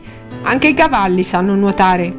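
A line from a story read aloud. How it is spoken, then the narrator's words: Know-it-all little girl. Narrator (Italian): disse Marta con il tono saccente di una bambina di 4 anni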